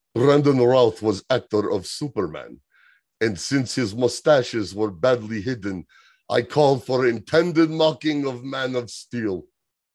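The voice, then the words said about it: Put-on Russian accent. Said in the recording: “I have to assume a Russian accent for this one”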